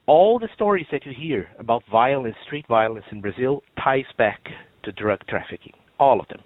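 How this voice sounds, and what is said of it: Brazilian Portuguese accent. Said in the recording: “you can probably tell by my accent that I'm not from around here. I'm originally from Brazil”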